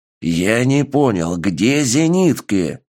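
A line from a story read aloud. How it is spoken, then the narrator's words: Commander's growl. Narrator (Russian): прорычал командир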